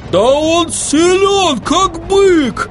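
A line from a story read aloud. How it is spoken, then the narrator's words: Yelling. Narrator (Russian): завопил Хорошагора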